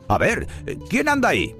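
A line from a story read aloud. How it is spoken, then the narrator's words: Shouting. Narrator (Spanish): El vigilante del cementerio gritó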